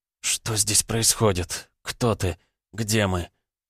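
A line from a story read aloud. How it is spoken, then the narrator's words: Sudden hoarse female voice. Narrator (Russian): Женский хриплый голос раздался неожиданно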